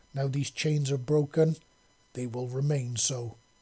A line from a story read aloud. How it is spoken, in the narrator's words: Tick said in a deep growl